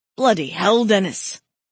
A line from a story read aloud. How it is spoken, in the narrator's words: Andrews hissed through clenched teeth